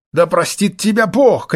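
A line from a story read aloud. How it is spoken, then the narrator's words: Shout. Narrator (Russian): крикнула мадам Шарпантье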